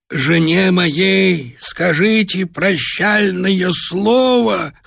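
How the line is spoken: Hoarse rasping. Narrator (Russian): хрипел он

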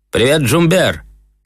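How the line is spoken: Shouting. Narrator (Russian): крикнул я ему

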